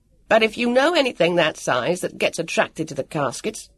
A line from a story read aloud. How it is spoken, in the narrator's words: snapped